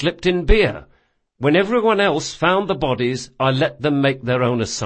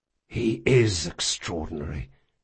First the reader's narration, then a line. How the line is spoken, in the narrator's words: Locke whispered